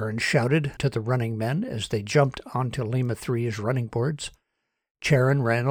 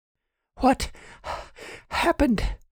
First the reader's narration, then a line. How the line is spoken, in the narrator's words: She said between breaths as she ran